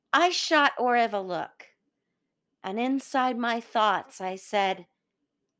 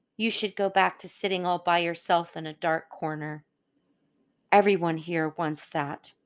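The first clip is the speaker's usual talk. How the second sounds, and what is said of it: Low, quiet voice. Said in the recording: “continued in a low voice.”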